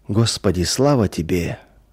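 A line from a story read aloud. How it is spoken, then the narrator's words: Quiet murmuring. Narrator (Russian): тихо приговаривал он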